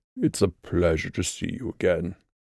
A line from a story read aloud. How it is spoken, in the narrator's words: Gluin murmured